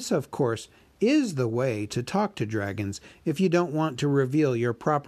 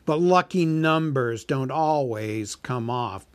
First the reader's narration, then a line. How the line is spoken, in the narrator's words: sneered the dragon